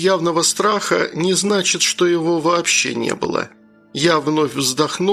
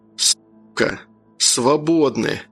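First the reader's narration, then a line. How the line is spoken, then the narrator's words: Cold, angry whisper. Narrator (Russian): Мой шепот прозвучал удивительно холодно и злобно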